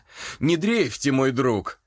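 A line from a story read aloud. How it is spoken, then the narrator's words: Loud laughter. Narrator (Russian): расхохотался Дюпре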